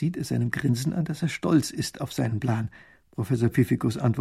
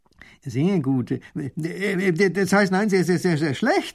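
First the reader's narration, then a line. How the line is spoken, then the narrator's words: Stammering. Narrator (German): stottert der Baron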